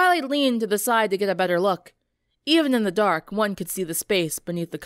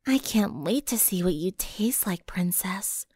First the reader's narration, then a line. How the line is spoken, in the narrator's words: a voice whispered in her ear